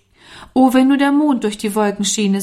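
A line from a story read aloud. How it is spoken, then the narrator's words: Sighing. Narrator (German): seufzte Norman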